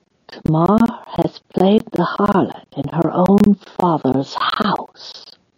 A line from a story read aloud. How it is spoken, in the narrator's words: she whispered